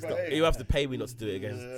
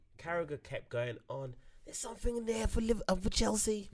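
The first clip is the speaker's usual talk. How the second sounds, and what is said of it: Put-on Scouse accent. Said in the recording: “That's my Scouse accent.”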